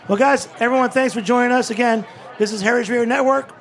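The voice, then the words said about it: Strained, hoarse voice. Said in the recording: “I'm losing my voice”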